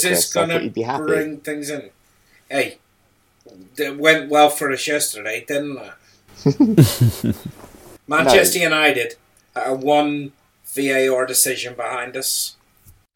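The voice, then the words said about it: Thick regional English accent. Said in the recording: “their thick accents”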